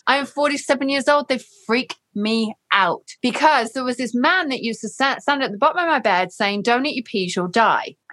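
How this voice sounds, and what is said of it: English accent. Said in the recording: “This is an English accent”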